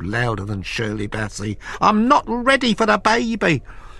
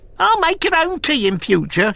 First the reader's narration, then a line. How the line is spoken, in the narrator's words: she shrieked, turning cerise